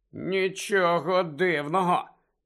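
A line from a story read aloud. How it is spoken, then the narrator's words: Hiss. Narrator (Ukrainian): прошипів Рон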